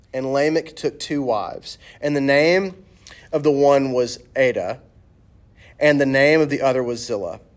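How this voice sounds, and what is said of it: Southern American accent. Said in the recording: “I can't undo my southern accent of saying these names”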